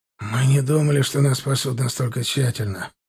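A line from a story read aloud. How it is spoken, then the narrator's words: Grumbled. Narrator (Russian): пробурчал Семен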